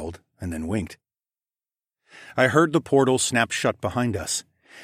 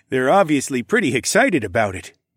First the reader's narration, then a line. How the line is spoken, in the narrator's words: Tecumseh chuckled